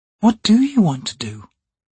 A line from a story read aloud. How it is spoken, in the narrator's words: She asked softly